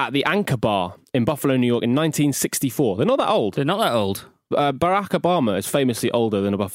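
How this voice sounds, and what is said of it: Usual voice. Nothing is said of it.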